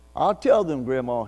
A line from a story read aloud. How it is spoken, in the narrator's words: he said